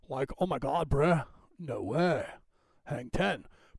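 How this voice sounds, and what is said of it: Put-on California Valley dude accent. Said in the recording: “if you're a Valley dude, right? ... People actually talk like this out here”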